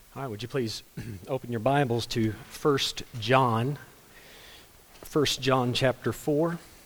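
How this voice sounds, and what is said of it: Weak voice. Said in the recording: “My voice isn't super strong today. This is about as good as it's going to get.”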